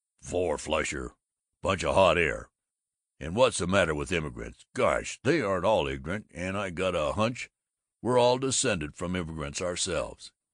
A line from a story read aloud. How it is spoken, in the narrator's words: But the dissatisfied Babbitt grumbled